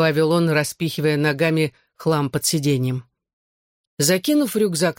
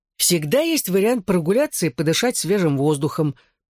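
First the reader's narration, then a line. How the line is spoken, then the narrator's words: Grumbling. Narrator (Russian): проворчал я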